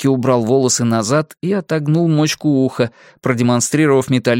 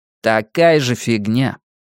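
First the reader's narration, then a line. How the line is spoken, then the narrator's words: Gloomy. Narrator (Russian): мрачно проговорил Никки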